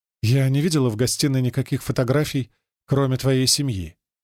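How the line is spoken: Plain. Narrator (Russian): говорит Джулия

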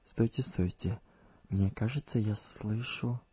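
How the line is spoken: Whisper. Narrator (Russian): Беатриса прошептала

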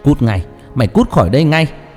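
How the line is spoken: Roaring. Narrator (Vietnamese): Tiếng gầm rú vang lên

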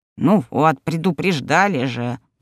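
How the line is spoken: Grumbling. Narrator (Russian): проворчал домовой

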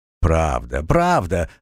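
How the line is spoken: Laughing. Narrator (Russian): засмеялся Фьорд

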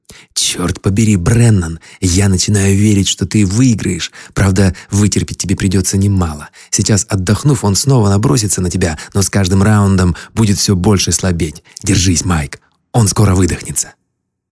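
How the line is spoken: Joyful whisper. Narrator (Russian): Генлан шептал ему с радостной улыбкой

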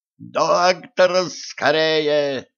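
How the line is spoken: Yelling. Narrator (Russian): заорал Денис

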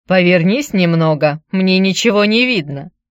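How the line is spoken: Giggle. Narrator (Russian): Я хихикнула

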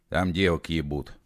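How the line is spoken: Displeased grumble. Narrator (Russian): недовольно пробурчал колдей

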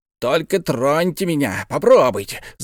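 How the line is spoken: Yell. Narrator (Russian): завопил Пальмирен Розет

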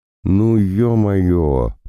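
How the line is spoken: Drawn-out drawl. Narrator (Russian): протянул

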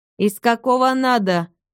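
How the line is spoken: Gruff bark. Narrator (Russian): рявкнул грубый голос

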